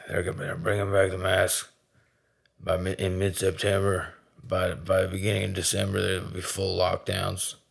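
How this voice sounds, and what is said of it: Imitates another person's voice. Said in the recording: “pretty good Jones impression.”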